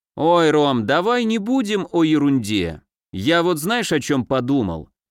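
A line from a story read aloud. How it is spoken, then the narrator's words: Abrupt. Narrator (Russian): резко сменил тему Евгений Маркович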